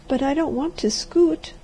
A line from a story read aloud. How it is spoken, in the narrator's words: she said unsteadily